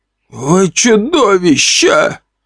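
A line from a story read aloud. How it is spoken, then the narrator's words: Groaning man. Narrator (Russian): простонал мужчина с бородой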